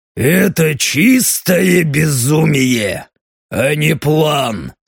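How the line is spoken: Through gritted teeth. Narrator (Russian): процедил Даррен

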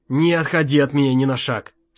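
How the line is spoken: Plain. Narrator (Russian): сказал отец

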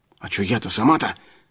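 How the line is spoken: Muttering man. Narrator (Russian): пробормотал мужичок

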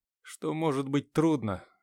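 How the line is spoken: Sighing admission. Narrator (Russian): вздохнув, признался я

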